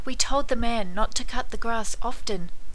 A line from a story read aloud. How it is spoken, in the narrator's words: they whispered